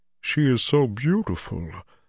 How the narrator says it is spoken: Loyal murmured

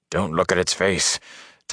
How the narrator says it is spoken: Tom muttered

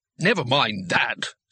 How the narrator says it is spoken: snapped Jigladwort

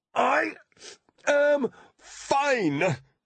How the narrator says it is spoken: she grunted, each word punctuated with another blow to the shell of ice

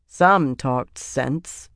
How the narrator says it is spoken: Sylviana said dryly

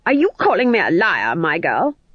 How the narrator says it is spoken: snapped Granny

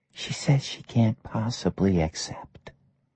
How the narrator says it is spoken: The waitress whispered

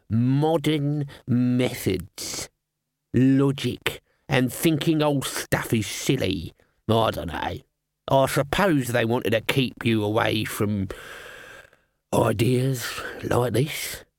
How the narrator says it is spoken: Albert sneered

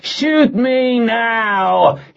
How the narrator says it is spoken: he screamed again

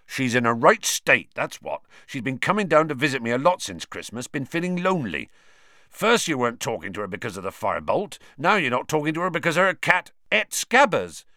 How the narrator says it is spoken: Ron interjected angrily

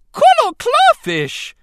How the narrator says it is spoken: the Gungan shrieked

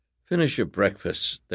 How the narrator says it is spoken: their uncle muttered

